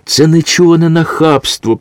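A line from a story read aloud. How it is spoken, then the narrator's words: Weak strained moaning. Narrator (Ukrainian): простогнала вона, на силу вимовляючи слова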